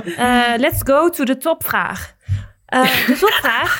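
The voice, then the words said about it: Sudden put-on accent. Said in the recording (Dutch): “Wat, wat, was het opeens voor accent?”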